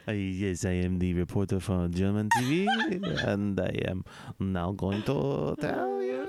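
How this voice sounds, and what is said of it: Mock German-style mixed accent. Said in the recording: “German accent... like a French German... incorporate all accents into one. One new mid-Atlantic accent.”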